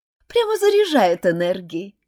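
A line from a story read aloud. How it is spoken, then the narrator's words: Giggling. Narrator (Russian): хихикнула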